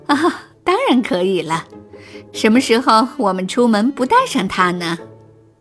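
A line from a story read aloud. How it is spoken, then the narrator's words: Laughing. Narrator (Chinese): 山姆森太太笑着说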